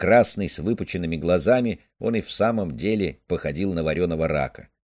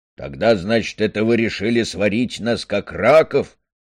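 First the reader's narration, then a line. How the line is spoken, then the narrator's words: Angry question. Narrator (Russian): сердито спросил Стормер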